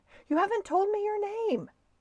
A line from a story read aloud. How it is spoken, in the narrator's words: yelled the man